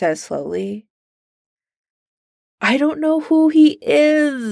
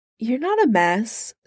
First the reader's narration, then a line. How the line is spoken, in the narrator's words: Steve says gently